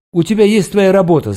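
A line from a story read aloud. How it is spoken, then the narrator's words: Yelled, choked up. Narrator (Russian): заорал я, чувствуя, что у меня что-то сжимается в горле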